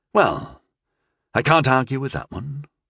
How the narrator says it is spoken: sighed

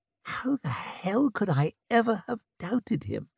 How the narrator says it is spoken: He whispered, tears brimming in his eyes

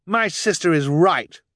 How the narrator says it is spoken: Violet cried

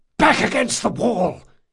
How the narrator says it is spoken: he hissed

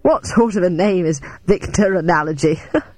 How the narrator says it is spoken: Victor laughed nervously and added

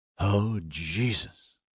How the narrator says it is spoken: muttered

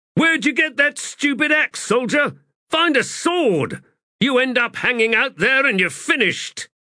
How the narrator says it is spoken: Balm shouted

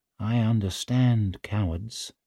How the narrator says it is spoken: said Pike softly

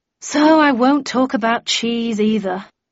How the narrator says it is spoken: I sighed

